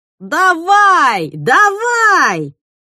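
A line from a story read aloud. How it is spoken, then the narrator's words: Yelling amid jeers. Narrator (Russian): Под свист и улюлюканье кто-то орал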